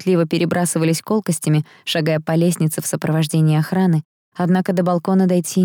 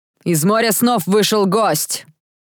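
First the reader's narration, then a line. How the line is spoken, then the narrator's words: Sudden piercing scream. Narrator (Russian): закричал вдруг пронзительный, страшный голос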